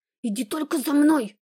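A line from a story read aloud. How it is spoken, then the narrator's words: Angry whisper. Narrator (Russian): прошептала я зло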